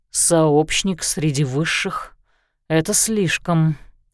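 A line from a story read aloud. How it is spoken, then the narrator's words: Plain. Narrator (Russian): сказал Лещинский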